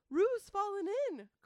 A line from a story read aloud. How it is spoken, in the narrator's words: cried Rabbit